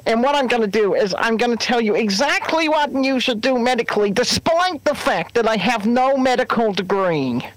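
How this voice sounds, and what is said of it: Mocking impression with put-on accent. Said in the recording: “I kind of sound like Kermit the Frog ... work on that accent. You sound more like a kind of Bouchy there”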